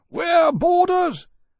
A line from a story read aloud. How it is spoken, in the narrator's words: Granby's voice came from below, yelling